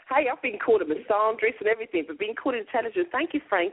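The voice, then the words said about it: Noticeable accent, sounds intelligent. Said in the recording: “it doesn't matter what this woman says with that accent, it just already sounds more intelligent ... you either sound extremely intelligent or like you're getting ready to blow up a building in a movie”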